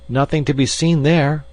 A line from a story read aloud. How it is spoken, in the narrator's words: cried the little man